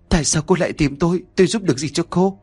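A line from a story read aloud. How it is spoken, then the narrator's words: Trembling question. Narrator (Vietnamese): Nhã Kiều liền miệng run rẩy hỏi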